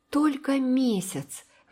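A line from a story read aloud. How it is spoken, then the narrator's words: Sigh, then proud. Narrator (Russian): Марила вздохнула, а затем сказала с гордостью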